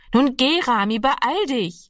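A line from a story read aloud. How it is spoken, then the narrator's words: Calling out again. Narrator (German): rief ihm Annegret noch einmal zu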